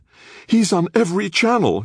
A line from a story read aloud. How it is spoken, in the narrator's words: she said, her voice close to panic